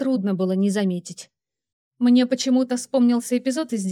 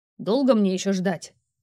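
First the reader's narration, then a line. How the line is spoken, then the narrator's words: Irritated male growl. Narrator (Russian): раздраженно рыкнул мужчина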